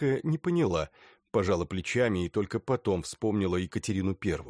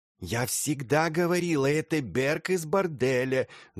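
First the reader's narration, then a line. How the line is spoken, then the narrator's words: Hissing into ear. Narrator (Russian): зашипела на ухо Тоннеру Кусманская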